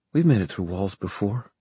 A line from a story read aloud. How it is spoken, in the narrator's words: Emma said quietly